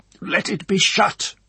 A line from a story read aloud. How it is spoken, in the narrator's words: he said in a harsh voice, struggling with deadly sickness